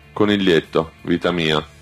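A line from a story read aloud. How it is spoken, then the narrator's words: Sighed. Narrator (Italian): sospirò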